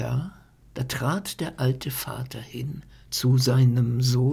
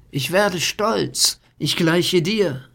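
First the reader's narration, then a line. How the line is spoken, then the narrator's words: Calling out. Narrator (German): rief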